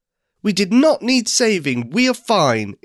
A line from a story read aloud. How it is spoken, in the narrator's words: exclaims Lou